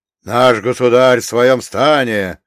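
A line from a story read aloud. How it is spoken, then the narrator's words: Barking Cossack. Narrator (Russian): рявкнул другой казак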